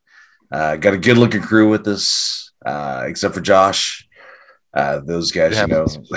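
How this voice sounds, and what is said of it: Hoarse, failing voice. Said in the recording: “I'm losing my voice,”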